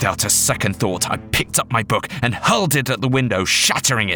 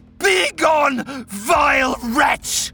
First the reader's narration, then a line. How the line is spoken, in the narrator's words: cried